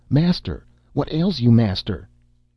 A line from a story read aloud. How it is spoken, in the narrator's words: The slave wept and cried aloud